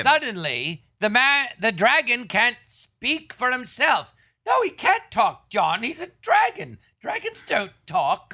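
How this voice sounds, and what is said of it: Put-on English accent imitating another person. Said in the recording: “Why are you using that accent? ... that accent is disrespectful. ... I'm imitating you. ... Did I have an English accent?”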